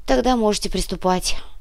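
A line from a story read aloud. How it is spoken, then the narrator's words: Sigh. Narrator (Russian): вздохнул Михраб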